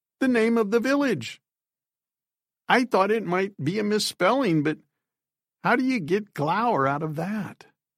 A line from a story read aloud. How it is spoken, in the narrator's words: She laughed into her hand